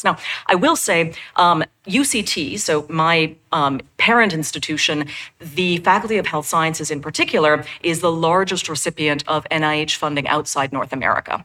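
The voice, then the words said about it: American accent. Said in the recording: “in case you can't tell from my accent, I'm American”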